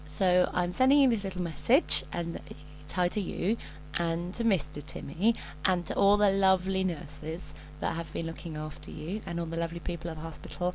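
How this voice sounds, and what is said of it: Slightly croaky voice. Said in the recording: “I'm a wee bit croaky”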